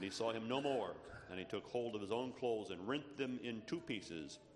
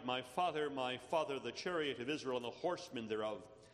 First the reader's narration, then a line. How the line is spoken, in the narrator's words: he cried